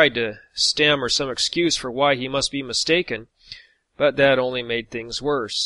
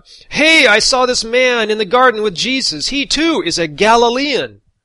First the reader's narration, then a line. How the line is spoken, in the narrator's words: he shouts out